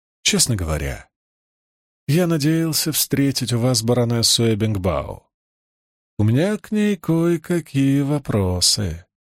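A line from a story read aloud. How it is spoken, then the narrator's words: Courteous reply. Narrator (Russian): любезным тоном ответил он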